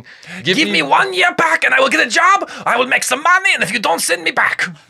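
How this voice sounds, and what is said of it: Put-on German accent. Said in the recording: “Your German accent legitimately took me by surprise”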